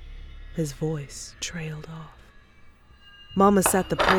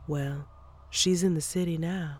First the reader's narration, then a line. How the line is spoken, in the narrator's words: she said